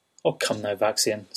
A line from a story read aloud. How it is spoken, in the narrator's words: said Wren